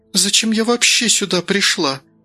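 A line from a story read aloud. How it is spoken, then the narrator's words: Bewildered speech. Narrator (Russian): растерянно проговорила Ботенко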